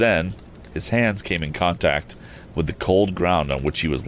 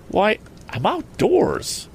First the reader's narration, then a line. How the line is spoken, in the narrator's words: he exclaimed